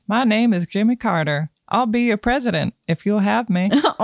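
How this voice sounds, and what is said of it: Imitates another person's voice. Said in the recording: “my Jimmy Carter impression”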